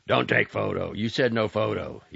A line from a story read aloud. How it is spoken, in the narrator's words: growled